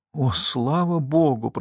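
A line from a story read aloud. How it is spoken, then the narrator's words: Whisper. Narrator (Russian): прошептала я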